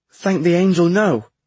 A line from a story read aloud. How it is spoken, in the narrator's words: Thomas exclaimed and went red under his summer tan